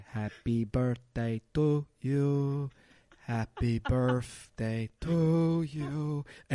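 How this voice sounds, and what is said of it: Singing in French Canadian accent. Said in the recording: “singing "Happy Birthday to Me," but with his French Canadian accent.”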